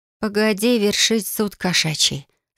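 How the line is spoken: Calm, suppressed anger. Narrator (Russian): сказала спокойно, хотя внутри вновь начинала поднимать голову змея

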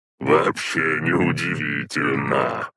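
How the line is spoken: Tense smiling snort. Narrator (Russian): хмыкнул Азарет, расплывшись в напряженной улыбке

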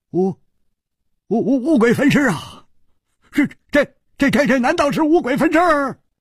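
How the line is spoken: Trembling. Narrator (Chinese): 冷秋魂像是已经冷得发抖，他颤声说

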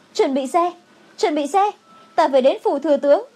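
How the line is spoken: Urgent shout while running. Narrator (Vietnamese): Khương Chấm Ngư vừa chạy vừa hét

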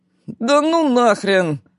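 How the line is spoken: Unenthusiastic groan. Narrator (Russian): простонал кто-то из команды, видимо, не воодушевившись идеей бегать с высоко поднятыми ногами по половинкам огромных резиновых мячей

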